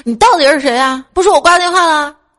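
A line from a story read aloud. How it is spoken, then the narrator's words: Angry. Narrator (Chinese): 我怒了，我说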